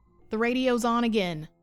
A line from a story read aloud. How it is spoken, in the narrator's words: Kai yelled, panicked